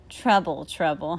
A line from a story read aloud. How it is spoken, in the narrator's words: Honey said